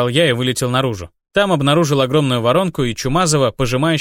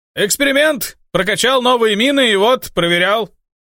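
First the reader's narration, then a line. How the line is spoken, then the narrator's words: Shouted. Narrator (Russian): Мари крикнула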